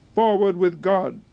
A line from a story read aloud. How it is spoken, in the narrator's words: pronounced Bagration, in a clear, firm voice